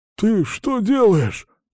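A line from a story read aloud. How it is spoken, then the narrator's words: Hoarse wheeze. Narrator (Russian): прохрипел он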